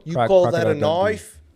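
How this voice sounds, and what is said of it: Crocodile Dundee impression. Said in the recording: “Crocodile Dundee, bro ... That was an excellent impersonation.”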